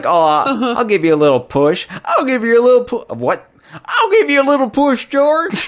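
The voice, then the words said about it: Cartoon character voice, Southern-drawl-like. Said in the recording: “My banjo accent, every time I try to go back to it, it's different every time ... Matthew McConaughey or whatever you did just now”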